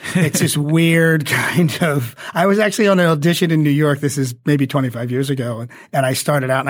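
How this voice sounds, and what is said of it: Usual voice. Nothing is said of it.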